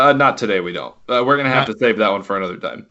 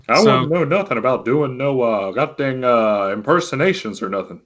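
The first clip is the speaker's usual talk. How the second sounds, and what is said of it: Hank Hill cartoon character voice. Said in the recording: “Oh, is that Hank Hill?”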